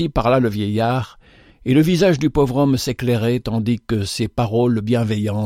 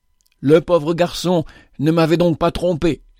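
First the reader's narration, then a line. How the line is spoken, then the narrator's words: Exclaimed. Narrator (French): s'écria-t-il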